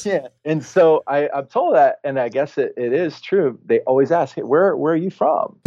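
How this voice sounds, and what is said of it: Laid-back Southern US accent. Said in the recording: “my accent sounds a bit of a southern burnout beach bum”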